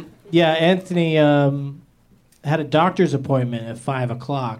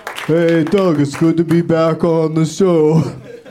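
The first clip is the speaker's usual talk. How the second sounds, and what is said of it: Imitates another person's voice. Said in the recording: “my Anthony Jeselnik impression.”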